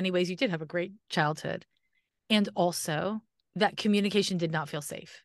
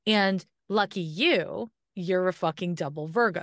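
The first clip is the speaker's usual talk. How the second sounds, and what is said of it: Sarcastic delivery. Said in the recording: “that was sarcasm, obviously, the lucky part”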